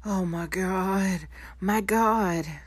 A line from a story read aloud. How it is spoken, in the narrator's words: the voice choked out